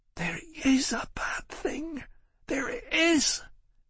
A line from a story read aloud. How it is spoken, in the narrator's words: She said in a whisper